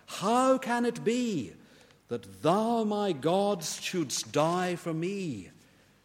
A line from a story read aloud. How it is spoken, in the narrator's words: says Charles Wesley